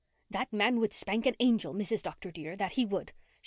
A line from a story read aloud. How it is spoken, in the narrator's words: she had declared bitterly